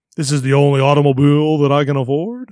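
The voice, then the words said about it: Good impression of a cartoon character. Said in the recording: “that's a pretty good impression.”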